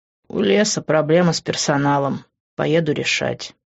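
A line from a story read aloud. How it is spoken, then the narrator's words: Sighing. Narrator (Russian): вздохнул он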